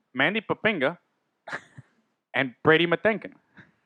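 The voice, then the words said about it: Odd put-on accent. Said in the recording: “that weird fucking accent that I don't know where you got ... It's a little John Gruden”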